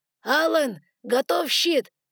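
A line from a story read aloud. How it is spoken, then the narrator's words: Shouting. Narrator (Russian): крикнул Мару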